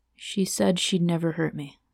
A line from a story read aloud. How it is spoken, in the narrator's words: he murmured